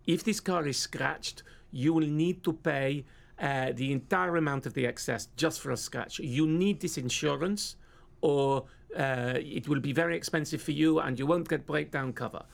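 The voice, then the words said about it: Generic foreign accent. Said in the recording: “this is a generic foreign accent. Do not ask me which it is, it's generic foreign.”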